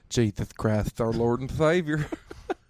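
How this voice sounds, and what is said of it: Put-on Southern accent. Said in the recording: “That southern spice.”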